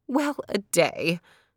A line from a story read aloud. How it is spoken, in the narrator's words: cried the old woman